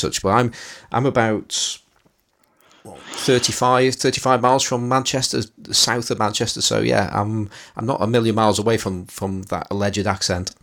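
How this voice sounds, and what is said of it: Northern English accent. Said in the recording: “He has the exact same accent as Daphne on Frasier. ... the accent is allegedly from Manchester ... a northern British accent, northern English accent”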